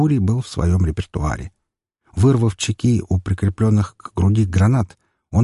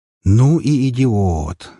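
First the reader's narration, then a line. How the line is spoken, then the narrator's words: Admiring exhale. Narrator (Russian): восхищенно выдохнул Тор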